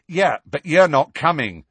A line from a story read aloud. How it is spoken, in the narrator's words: said Ron angrily